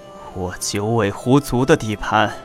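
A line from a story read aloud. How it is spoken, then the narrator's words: Sighing, worried old voice. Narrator (Chinese): 老狐王叹了一口气，捶着胸发愁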